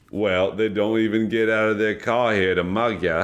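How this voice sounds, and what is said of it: Put-on Australian accent with Cockney. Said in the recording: “the Australian guy... Because of your outstanding Australian accent... I like how you guys threw in a little Cockney.”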